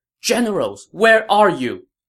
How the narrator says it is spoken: Lady Xu shouted

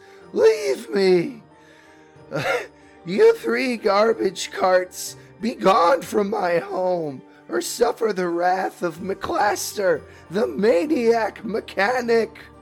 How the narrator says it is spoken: a voice comes through it, a very squeaky voice that says

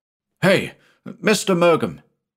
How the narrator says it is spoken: he cried

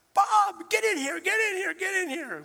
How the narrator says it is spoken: I heard her hollering

